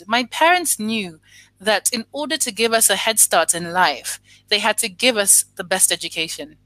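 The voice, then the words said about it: Slight British accent tinge. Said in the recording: “I do have a British accent tinge when I speak”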